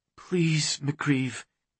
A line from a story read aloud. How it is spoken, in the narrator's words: she murmured